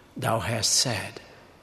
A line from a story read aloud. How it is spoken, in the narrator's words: he replied calmly